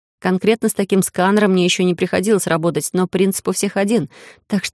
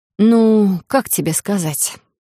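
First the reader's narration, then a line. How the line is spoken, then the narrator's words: Sighing. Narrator (Russian): вздохнула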